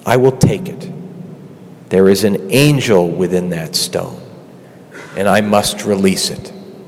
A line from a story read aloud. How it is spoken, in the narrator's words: he said quietly